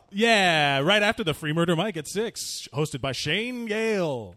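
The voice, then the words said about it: Announcer voice. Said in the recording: “That's my announcer voice.”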